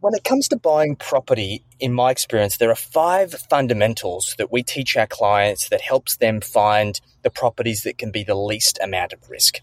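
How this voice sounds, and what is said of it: Australian accent. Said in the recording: “I just am like infatuated with the accent... my Australian slang”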